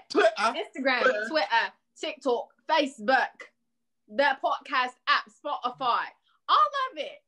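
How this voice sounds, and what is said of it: Put-on British accent. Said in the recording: “We always got to do the British accent.”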